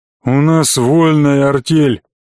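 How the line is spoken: Reluctant bear's grumble. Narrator (Russian): проворчал шатун, но было видно, что говорить на эту тему ему неприятно

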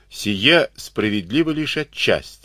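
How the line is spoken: Calm objection. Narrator (Russian): спокойно возразил Юрий Тимофеевич

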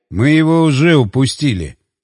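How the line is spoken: Muttering. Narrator (Russian): пробурчал

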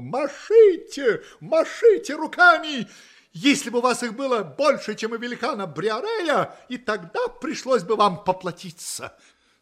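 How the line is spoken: Exclamation. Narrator (Russian): Дон Кихот воскликнул

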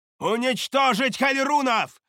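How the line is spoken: Shout. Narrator (Russian): выкрикнула Шадея

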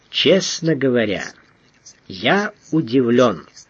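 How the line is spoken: Slow speech. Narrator (Russian): медленно произнес титулярный советник

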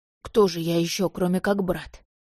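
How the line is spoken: Wry snort. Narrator (Russian): хмыкнул Бен

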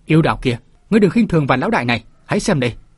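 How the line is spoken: Panicked loud shout. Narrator (Vietnamese): Vạn Vũ Sương hoảng kinh đúng thế, liền hét lớn

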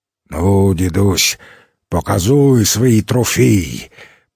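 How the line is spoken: Booming drone. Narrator (Russian): прогудел Дегтяренко

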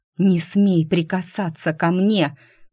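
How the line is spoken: Hiss. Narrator (Russian): прошипела Шуалейда

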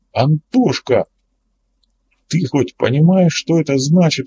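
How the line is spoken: Exclamation. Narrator (Russian): воскликнул Влад

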